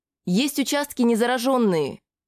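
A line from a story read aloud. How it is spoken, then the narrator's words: Shout. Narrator (Russian): крикнула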